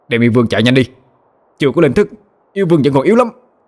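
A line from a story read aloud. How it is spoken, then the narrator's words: Shouting sharply. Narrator (Vietnamese): Bạch Kê Tinh quát lên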